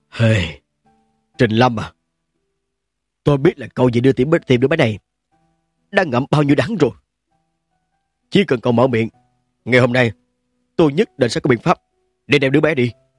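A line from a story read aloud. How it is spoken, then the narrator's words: Low voice. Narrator (Vietnamese): Lâm Đội thấp giọng nói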